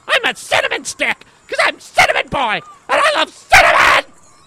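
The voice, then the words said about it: Yelling loudly. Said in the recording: “Stop yelling! You're gonna scare everyone.”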